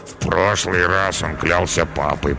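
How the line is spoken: Muttered. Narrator (Russian): пробормотал Карабас

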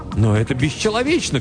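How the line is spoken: Indignant shout. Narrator (Russian): крикнул Пирсон

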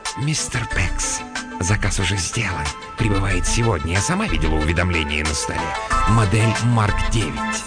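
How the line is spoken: Hoarse whisper. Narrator (Russian): хриплый голос прошептал

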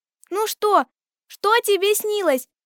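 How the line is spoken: Shouting in chorus. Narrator (Russian): закричали мы хором

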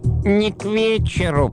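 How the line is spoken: Creaky voice. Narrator (Russian): проскрипел средний

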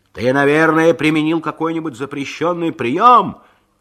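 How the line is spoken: Shouted. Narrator (Russian): крикнул Джонни Норрис

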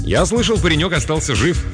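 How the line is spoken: Very cheerful. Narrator (Russian): заявил я самым жизнерадостным тоном

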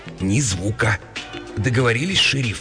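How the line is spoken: Quiet question. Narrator (Russian): тихо спросила мисс Олдейп

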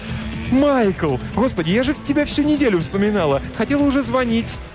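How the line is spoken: Astonished cry. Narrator (Russian): Она изумленно вскрикнула

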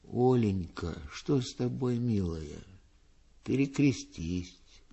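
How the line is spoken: Tender. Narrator (Russian): Пустовалов говорила ей нежно

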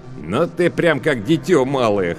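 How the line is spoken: Chuckling. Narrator (Russian): хохотнул Лавен

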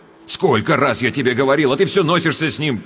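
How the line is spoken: Sharp scolding shout. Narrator (Russian): прикрикнул он на мать

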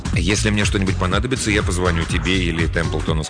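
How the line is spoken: Plain. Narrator (Russian): сказал

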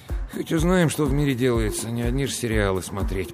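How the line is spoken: Grumbling. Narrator (Russian): пробурчал он

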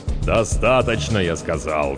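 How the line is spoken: Growled. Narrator (Russian): зарычал судья

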